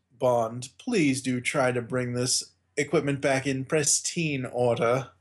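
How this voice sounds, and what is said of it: Poor English accent imitating Q. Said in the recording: “my Q/English accent is horrible... I'm not trying to emulate Desmond Llewellyn”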